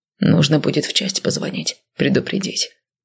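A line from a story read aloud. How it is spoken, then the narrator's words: Husky reply. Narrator (Russian): сипло отозвался Вениамин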